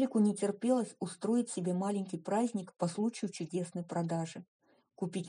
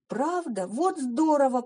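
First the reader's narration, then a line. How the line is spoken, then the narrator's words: Excited exclamation, young woman. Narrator (Russian): воскликнула девушка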